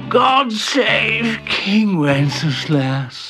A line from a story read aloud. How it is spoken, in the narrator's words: He only grunted something that sounded like